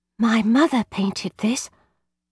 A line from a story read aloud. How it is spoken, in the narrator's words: Dumbfounded, almost beyond speaking, I whispered